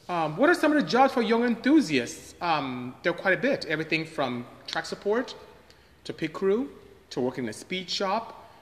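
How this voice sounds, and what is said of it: Nigerian accent. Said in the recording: “what's my Jamaican accent? I am not Jamaican, I am Nigerian actually.”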